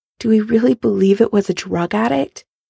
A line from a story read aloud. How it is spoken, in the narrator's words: Karen asks quietly